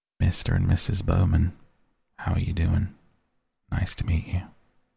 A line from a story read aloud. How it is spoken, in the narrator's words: saying in a soft southern accent